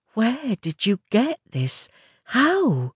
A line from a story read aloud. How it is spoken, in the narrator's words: Her voice was soft, almost tearful, as she asked